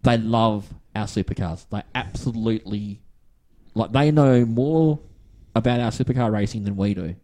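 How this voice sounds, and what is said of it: Australian accent. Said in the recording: “people hearing the Australian accent”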